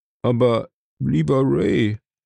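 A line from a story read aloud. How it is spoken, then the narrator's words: Murmured. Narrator (German): murmelte Johnson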